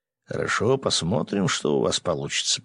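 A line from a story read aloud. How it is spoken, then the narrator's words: Mutter. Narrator (Russian): пробормотал он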